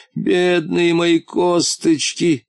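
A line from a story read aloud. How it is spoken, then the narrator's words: Groaning. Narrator (Russian): простонал он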